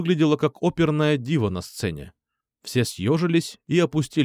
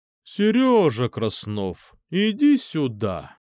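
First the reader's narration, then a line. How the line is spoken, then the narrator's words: Deep booming sing-song. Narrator (Russian): Практически пропела она зычным глубоким голосом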